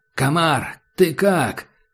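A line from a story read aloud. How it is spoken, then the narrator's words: Shout. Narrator (Russian): крикнул таджик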